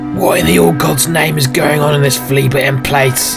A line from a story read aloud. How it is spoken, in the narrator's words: barked Elmander with rage